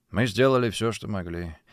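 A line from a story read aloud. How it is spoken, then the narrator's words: Tired reply. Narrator (Russian): устало ответил он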